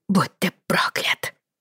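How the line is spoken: Hissed. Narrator (Russian): прошипела она

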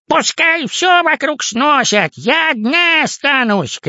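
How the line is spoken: Distant shout. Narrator (Russian): крикнула тётя Паня со своего этажа

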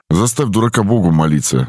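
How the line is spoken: Angry spat remark. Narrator (Russian): зло сплюнул высокий

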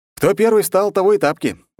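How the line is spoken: Exaggeratedly cheerful declaration. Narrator (Russian): заявил преувеличенно бодро

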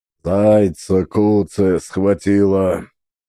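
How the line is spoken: Muttered under breath. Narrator (Russian): Пробурчал под нос Сафрон

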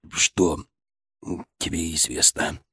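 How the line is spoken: Strained, forced out. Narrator (Russian): Волков с трудом выдавил из себя эти слова

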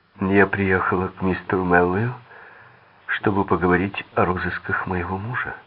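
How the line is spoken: Calm and firm. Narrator (Russian): спокойно и твердо начала рассказывать

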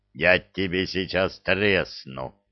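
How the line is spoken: Growling troll. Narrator (Russian): Прорычал тролль

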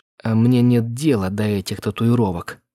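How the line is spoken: Through clenched teeth. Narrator (Russian): процедила она сквозь зубы

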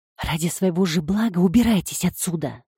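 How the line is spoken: Quiet warning whisper. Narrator (Russian): Тихо и предостерегающе прошептала она

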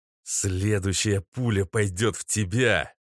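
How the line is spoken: Threatening growl. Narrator (Russian): прорычал парень

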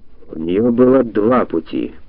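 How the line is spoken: Gloomy. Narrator (Russian): мрачно рассуждал Потлатый

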